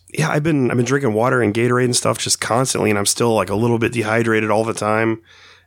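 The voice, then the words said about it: Voice sounds worn, not normal. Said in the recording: “I'm sure you can hear it in my voice. Like, my sound is not normal. ... It's very worse. ... my voice just really came back, like, 3 days ago. It's been gone for weeks.”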